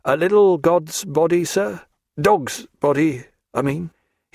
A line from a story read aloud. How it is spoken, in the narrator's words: he did so in a low and melancholy voice